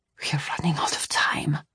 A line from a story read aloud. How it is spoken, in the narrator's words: he whispered thickly